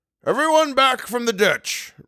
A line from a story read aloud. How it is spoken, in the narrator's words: roared Leinengen